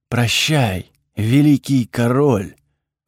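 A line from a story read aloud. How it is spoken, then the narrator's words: Breathed out. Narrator (Russian): выдохнула Эфра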